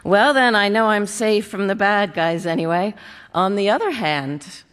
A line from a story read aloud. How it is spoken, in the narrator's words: laughed